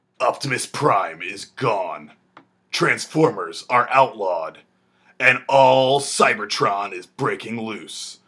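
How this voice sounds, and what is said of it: Movie trailer narrator voice. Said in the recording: “my movie trailer voice”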